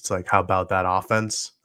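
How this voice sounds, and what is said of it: Imitates another person's voice. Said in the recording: “in my best Jimmy Johnson voice,”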